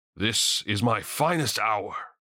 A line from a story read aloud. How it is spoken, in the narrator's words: proclaimed loudly